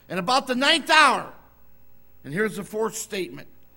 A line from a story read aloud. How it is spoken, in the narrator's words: Jesus cried with a loud voice, saying